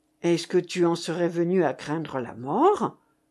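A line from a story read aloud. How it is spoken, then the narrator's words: Low voice. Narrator (French): lui dit le lieutenant à voix basse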